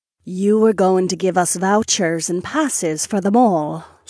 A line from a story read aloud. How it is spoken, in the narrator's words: Sorsha purred